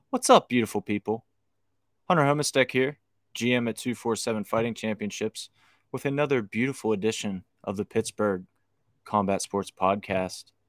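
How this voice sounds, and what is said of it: Put-on radio announcer voice. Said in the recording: “This is my radio voice I'm trying out for you guys.”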